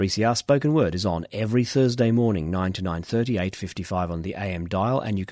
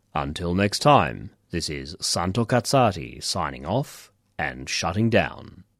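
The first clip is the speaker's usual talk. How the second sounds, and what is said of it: Put-on radio announcer voice. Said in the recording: “put on my radio voice”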